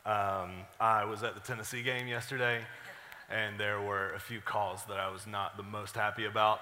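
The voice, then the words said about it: Hoarse, strained voice. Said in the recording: “I sound a little hoarse, ... I yelled a lot. Pretty sure that's why my voice was gone.”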